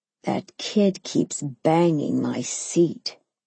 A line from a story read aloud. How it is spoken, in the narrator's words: grumbled through clenched teeth